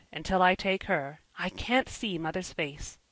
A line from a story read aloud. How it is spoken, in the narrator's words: he muttered